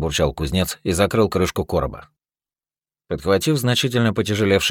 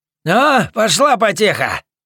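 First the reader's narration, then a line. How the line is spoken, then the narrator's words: Shouting. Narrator (Russian): крикнул Тархим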